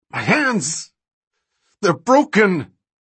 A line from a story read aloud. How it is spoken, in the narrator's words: He shouted